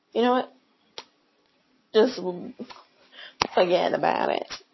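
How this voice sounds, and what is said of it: Put-on New York accent. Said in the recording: “my normal New York accent, like Joey does with Friends”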